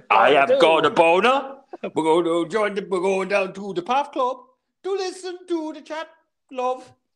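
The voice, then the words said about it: Sings in a put-on accent. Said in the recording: “Can you not do that accent, please?”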